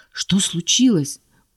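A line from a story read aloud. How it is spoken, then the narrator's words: Anxious question. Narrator (Russian): взволнованно поинтересовалась я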